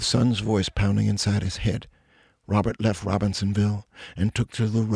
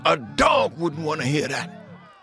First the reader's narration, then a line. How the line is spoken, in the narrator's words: Sun ran back in shouting